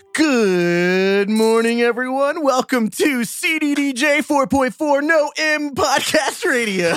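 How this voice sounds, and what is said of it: Morning radio announcer voice. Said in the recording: “doing your morning radio voice? ... morning renouncer voice”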